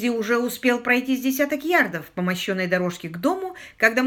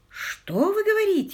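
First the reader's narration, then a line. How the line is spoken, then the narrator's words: Exclamation. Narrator (Russian): воскликнул Питер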